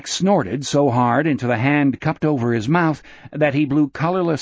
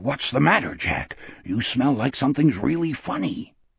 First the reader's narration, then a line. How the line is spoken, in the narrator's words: whispered hoarsely